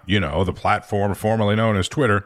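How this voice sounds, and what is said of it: Sarcastic tone. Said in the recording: “I'm saying that sarcastically”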